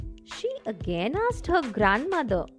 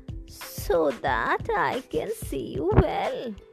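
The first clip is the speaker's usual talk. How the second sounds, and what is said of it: Altered wolf character voice. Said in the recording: “The wolf replied in a changed voice,”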